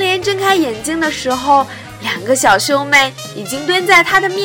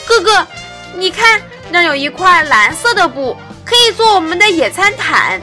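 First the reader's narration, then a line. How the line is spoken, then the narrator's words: Sudden loud child's cry. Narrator (Chinese): 忽然，小妹妹大叫起来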